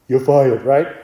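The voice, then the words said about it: Weak Donald Trump impression. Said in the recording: “I don't do a good Trump impersonation.”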